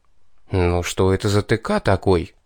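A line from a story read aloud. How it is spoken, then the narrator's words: Confused mutter. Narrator (Russian): растерянно пробормотал я, когда дар речи вернулся ко мне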